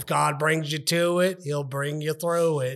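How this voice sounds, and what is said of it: Put-on Southern American accent. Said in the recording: “I got to say it in their accent.”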